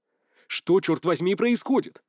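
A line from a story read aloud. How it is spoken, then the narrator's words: Blunt bark. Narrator (Russian): Без всяких церемоний рявкнул Сюй Хайфэн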